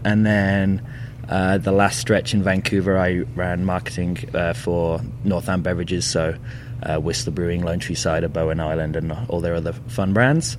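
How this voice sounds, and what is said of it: English Birmingham accent. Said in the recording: “it's obvious from your accent, you're not originally from here ... Birmingham, England”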